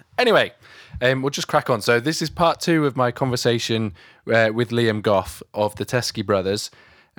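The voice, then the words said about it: Croaky voice with vocal flips. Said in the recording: “my voice is feeling it today. It's a little bit croaky, and I can't stop these little vocal flips from happening”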